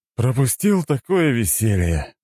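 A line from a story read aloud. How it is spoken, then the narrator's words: Sigh. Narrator (Russian): вздохнул он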